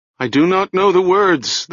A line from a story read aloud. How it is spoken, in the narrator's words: the chanter said, and his voice rose high as if in terror